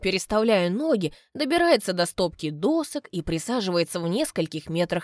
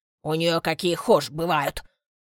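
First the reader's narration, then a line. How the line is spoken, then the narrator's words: Angry old man's grumble. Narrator (Russian): Злобно буркает старичок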